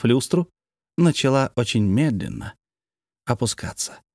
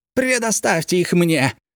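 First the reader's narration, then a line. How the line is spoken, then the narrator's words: Shouted, sharp piercing voice. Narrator (Russian): закричал прыг-скок, легко перекрывая шум своим резким пронзительным голосом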